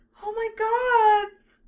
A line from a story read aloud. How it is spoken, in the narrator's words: Silphiel squealed with delight